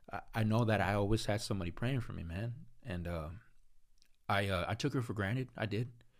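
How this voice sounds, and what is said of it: Emotional, voice getting choked up. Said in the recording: “I'm getting a little emotional”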